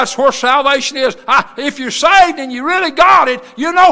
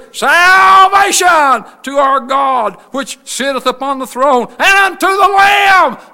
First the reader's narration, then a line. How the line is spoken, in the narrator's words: They cried with a loud voice, saying